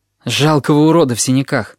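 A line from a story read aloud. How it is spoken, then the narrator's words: Gloomy. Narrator (Russian): отозвался я мрачно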